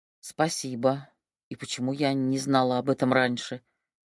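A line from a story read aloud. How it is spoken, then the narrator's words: Deep sigh. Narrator (Russian): Кристина глубоко вздохнула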